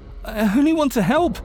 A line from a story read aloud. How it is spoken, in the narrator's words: I said, choking back tears